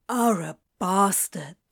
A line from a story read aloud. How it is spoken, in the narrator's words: Crowley said, trying to hide a gasp